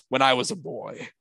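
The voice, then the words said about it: Imitates another person's voice. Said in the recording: “That was a good impression, actually.”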